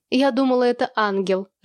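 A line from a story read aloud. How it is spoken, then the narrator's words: Coy affected laugh. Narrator (Russian): жеманно рассмеялась Хаси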